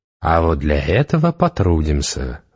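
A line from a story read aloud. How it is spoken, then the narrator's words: Insinuating witch. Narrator (Russian): вкрадчиво сказала ведьма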